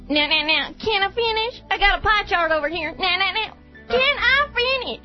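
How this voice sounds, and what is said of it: Imitates another person's voice. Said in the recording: “Ross Perot ... your one impression”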